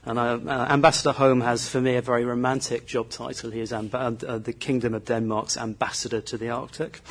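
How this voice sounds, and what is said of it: British accent, southern English. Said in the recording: “I'm a Brit, as you can probably hear from the accent, and I grew up in the south of England”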